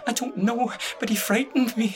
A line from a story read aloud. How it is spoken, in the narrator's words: she whimpered